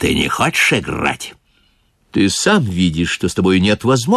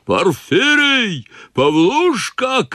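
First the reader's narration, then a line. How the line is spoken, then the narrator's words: Furious shouting. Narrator (Russian): кричал Ноздрев в бешенстве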